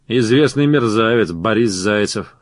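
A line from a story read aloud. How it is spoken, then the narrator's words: Scoffing snort. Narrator (Russian): хмыкнул Робеспьер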